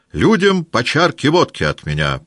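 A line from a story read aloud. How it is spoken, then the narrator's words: Loud announcement. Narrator (Russian): прибавил громко, чтобы солдаты слышали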